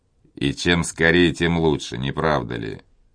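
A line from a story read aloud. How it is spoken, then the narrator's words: Sarcastic. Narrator (Russian): язвительно заметил Монбар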